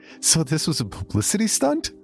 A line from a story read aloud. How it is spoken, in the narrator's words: She laughed